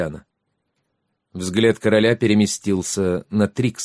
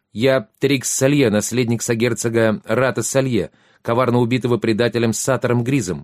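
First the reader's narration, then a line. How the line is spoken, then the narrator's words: Exclaimed. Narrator (Russian): воскликнул Трикс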